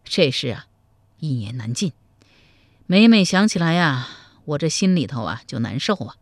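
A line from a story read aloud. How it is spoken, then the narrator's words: Heavy sigh. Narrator (Chinese): 赵匡胤长叹一声说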